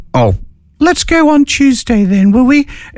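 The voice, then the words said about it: Very high-pitched character voice. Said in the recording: “Gerald had a very high voice.”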